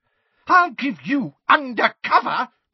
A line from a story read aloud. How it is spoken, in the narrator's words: cried Mrs